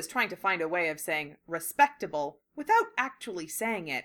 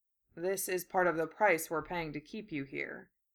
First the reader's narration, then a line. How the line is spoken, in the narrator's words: Gaara said dryly